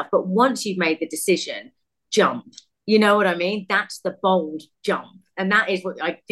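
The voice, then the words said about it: British accent. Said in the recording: “we can hear from your beautiful accent. You were from the UK”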